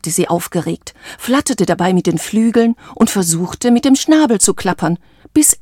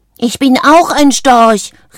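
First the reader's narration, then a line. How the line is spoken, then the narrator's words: Called out. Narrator (German): rief sie und holte tief Luft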